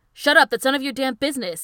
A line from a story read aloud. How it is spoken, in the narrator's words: he yells